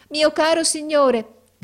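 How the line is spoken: Woman shouting. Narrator (Italian): gridò essa

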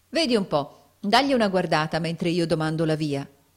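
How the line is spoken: Plain. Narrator (Italian): disse Nicola

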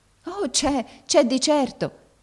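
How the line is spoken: Deeply moved exclamation. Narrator (Italian): esclamò la barberina tutta commossa

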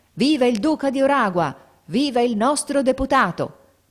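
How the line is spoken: Crowd shouting. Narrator (Italian): La folla gridava

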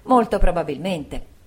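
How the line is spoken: Two voices exclaiming. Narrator (Italian): entrambi esclamammo

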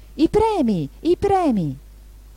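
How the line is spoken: Confused crowd shouting. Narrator (Italian): tutti gridando confusamente

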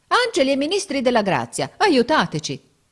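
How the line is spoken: Exclaimed. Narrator (Italian): esclamò Giorgio

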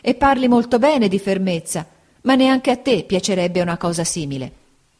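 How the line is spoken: Mother's exclamation. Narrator (Italian): esclamò mia madre

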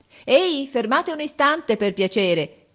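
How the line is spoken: Cheerful shout. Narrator (Italian): grida allegramente

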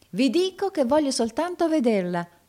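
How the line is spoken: Customer exclaiming. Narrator (Italian): esclamò il cliente

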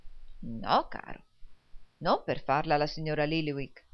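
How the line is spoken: Plain. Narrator (Italian): rispose il riscossore

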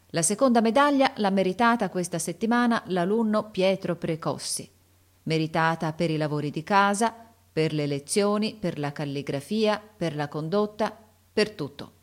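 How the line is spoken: Loud voice. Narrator (Italian): Il sovrintendente disse a voce alta

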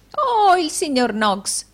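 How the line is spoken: Exclamation. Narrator (Italian): esclamò Arturo Gride

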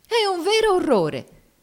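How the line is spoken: Exclaimed. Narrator (Italian): esclamò Miss Ophelia

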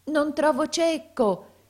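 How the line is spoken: Tearful shouting. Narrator (Italian): gridava talvolta col pianto alla gola

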